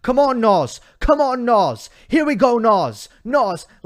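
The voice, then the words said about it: Bad Tim Henman impression. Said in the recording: “a really bad Tim Henman accent”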